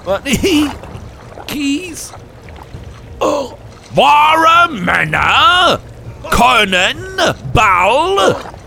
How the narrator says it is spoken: screamed the first elder

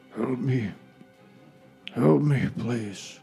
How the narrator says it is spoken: you hear a moan from one of the prone bodies

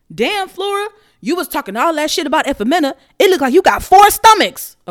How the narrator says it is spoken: a voice shouted

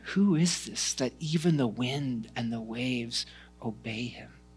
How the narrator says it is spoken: muttering to each other

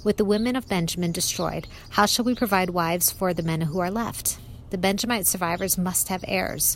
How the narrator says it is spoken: they said

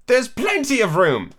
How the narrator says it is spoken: Alice said indignantly

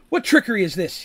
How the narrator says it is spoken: He yells back

